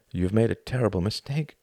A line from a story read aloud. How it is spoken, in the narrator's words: said Tom